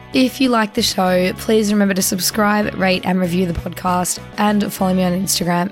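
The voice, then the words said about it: Croaky, hoarse voice. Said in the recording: “excuse my voice ... it is a little bit croaky”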